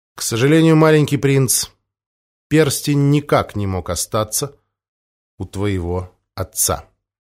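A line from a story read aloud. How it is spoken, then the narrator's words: Sorrowful. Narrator (Russian): печально ответил Помпилио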